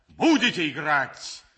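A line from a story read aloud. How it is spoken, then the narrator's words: Loud shout. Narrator (Russian): Громким голосом крикнул граф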